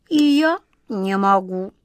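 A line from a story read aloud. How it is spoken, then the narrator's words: Rueful sigh. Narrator (Russian): Кот Васька сокрушенно вздохнул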